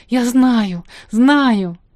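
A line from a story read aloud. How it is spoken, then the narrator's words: Exclaiming. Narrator (Russian): Она воскликнула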